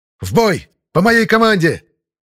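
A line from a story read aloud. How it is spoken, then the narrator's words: Shout. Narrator (Russian): крикнул я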